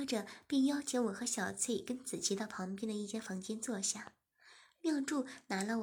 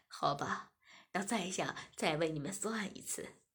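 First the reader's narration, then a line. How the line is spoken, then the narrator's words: Smiling. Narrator (Chinese): 妙珠笑了笑，便说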